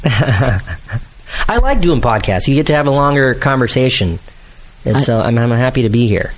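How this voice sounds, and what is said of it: Put-on serious, interesting podcast voice. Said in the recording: “This is my podcast voice. I hope this isn't distracting or weird, but this is how I talk whenever I do podcasts to make everything I'm saying sound a little more interesting or serious.”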